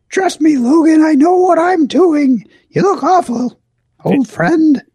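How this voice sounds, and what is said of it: Old-sounding character voice. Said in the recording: “I sound so old. ... I'm not this old.”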